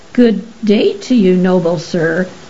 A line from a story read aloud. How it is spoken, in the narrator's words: sputtered Professor Mungoose, struggling to sit up